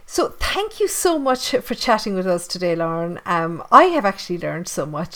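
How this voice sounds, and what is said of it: Irish Tipperary accent, dropped TH sounds. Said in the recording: “there's my Irish accent coming out now, and I don't pronounce my THs ... the old Tipperary accent comes out every now and again”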